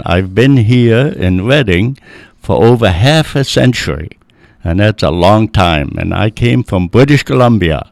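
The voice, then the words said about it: Speaks with a foreign accent. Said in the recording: “you probably can tell I still have the accent.”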